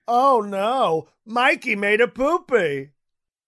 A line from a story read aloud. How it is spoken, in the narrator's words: yelling